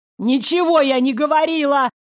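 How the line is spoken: Shrieking. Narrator (Russian): Завизжала Верда

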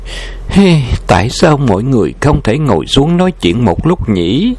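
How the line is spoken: Melancholy sigh. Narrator (Vietnamese): Nàng u uất thở dài một tiếng rồi nói

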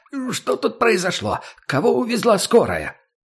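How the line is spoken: Breathless shout. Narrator (Russian): закричал, задыхаясь

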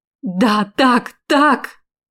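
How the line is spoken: Excited exclamation. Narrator (Russian): воскликнула я

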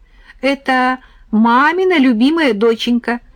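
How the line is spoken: Giggling. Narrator (Russian): хихикнула Таня

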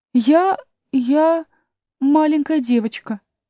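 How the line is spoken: Uncertain. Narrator (Russian): неуверенно сказала Алиса

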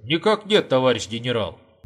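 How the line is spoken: Cheerful reply. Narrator (Russian): бодро отвечал Горбач

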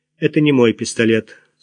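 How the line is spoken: Dry reply. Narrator (Russian): сухо ответила она

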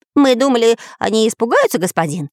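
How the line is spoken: Parrot's timid babble. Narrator (Russian): пролепетал попугай

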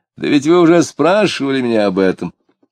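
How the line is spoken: Tipsy, laughing. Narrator (Russian): Дмитрий пьяненький и красный сказал, смеясь

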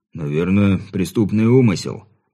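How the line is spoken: Deep-voiced policeman. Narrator (Russian): пробасил полицейский

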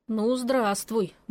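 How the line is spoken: Grumbling mutter. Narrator (Russian): буркнула я

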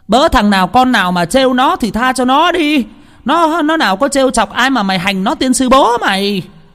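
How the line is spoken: Angry yelling. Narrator (Vietnamese): bà ấy vừa la lên

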